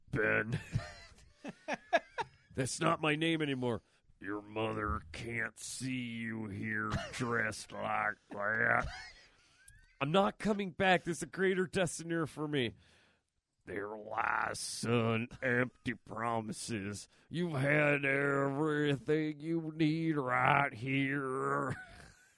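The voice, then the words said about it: Imitates another person's voice. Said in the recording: “your Sam Elliott impression”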